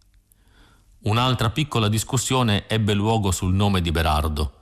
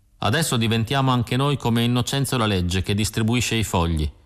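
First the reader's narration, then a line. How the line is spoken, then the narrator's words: Plain. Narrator (Italian): mi disse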